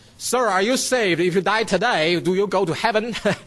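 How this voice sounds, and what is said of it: Put-on Australian accent. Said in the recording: “how do you say in that Australian accent?”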